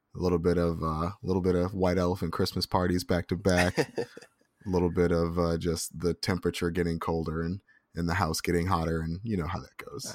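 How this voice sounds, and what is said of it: Voice cutting in and out, hoarse. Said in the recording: “my voice has been going in and out a little bit today”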